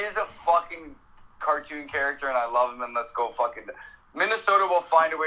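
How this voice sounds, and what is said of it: Usual voice. Nothing is said of it.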